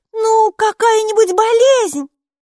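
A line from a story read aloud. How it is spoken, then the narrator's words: Shout. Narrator (Russian): крикнула Майки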